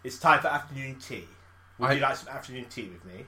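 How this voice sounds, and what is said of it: Exaggerated posh British voice. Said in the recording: “Posh to me is like ... That kind of talking.”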